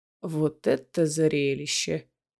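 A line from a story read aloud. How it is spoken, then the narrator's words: Muttering. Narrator (Russian): пробормотал Дарра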